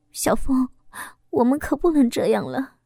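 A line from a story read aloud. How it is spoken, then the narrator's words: Nervous whisper. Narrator (Chinese): 心跳的厉害，紧张的小声的说道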